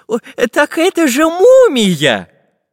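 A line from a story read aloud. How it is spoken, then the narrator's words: Joyful exclamation. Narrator (Russian): радостно воскликнул Семен Семенович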